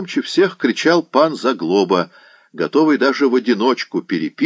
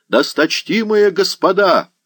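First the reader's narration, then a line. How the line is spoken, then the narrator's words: Window-rattling yell. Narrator (Russian): вопил так, что стекла в окошках звенели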